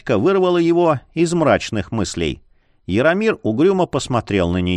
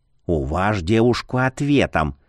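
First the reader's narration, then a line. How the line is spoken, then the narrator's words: Whispered. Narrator (Russian): шепнул Марий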